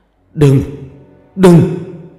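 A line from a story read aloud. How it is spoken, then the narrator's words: Man shouting, halting accent. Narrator (Vietnamese): Ông ta quát lên một câu tiếng Việt không sõi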